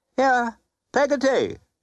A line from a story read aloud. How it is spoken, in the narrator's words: cried Miss Betsy